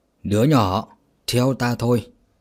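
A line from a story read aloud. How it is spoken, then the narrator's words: Kind, smiling. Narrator (Vietnamese): Trưởng môn gật đầu mỉm cười mà nói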